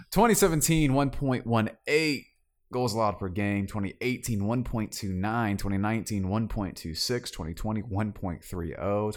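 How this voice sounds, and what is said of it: South Georgia accent. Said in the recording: “My South Georgia accent”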